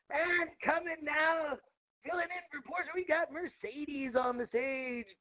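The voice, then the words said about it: Radio DJ announcer voice. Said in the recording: “do a radio DJ voice, and then somehow it turned into a strip club announcer voice.”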